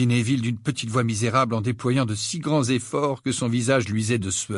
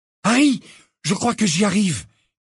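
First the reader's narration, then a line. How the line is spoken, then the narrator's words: Exclaimed. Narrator (French): s'écria Simus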